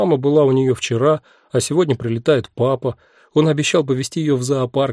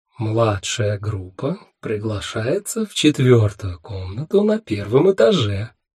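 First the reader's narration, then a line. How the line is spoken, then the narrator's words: Mysterious announcing voice. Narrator (Russian): сообщила информателла таким таинственным голосом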